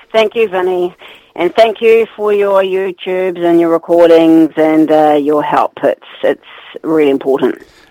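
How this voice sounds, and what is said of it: Enthusiastic, energetic tone. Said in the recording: “You sound really enthusiastic”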